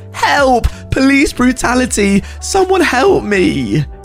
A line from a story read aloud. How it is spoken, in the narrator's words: Teapot was loaded into the police cruiser, kicking and screaming